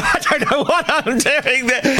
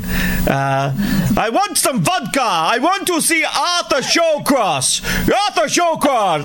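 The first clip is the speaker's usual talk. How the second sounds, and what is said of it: Put-on Russian accent. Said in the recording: “there has been a request for a Russian accent ... A Russian accent ... How does an Russian accent sound?”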